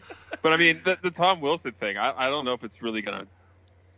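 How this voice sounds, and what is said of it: Usual voice. Nothing is said of it.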